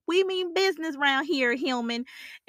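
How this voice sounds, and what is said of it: Sassy Southern accent. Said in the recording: “this super Southern accent with a little sass to it”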